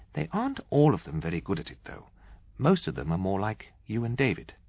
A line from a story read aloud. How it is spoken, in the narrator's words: she told us kindly